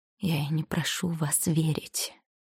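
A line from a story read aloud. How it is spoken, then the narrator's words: Hoarse. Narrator (Russian): хриплым голосом ответил он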